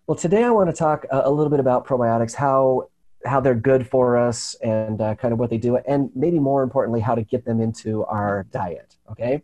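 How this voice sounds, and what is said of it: Raspy, froggy voice. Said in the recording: “my voice is a little bit raspy ... froggy? ... a little froggy”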